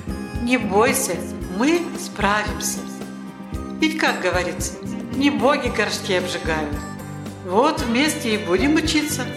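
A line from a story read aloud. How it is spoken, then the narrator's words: Calm reply. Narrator (Russian): Денис спокойно ответил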